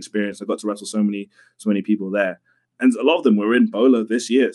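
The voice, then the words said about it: London English accent. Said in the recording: “you're from London. We can tell from your accent.”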